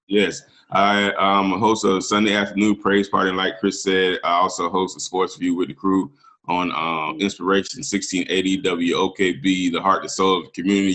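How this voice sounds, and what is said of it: Smooth radio announcer voice. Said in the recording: “definitely got that radio voice.”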